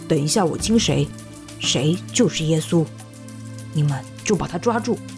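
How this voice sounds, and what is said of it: Quiet whispered speech. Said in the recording (Chinese): “小声”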